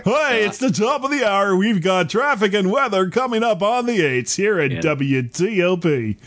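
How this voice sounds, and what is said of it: Radio DJ announcer voice. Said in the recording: “You got to have the right kind of DJ voice to handle that.”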